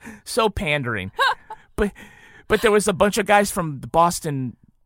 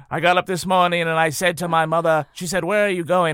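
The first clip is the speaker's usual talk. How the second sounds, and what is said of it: Ted Kennedy accent impression. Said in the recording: “Ted Kennedy ... how he introduced himself ... I'm going to get into the accent now”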